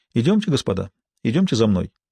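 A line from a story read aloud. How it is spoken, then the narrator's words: Relaxed, friendly tone. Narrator (Russian): Бувуа заговорил непринужденным и дружелюбным тоном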